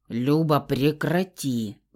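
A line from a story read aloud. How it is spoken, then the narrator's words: Menacing growl. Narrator (Russian): Грозно прорычал Фауст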